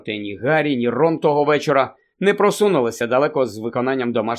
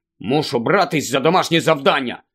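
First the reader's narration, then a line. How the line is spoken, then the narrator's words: Angry grumble. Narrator (Ukrainian): Сердито буркнув Рон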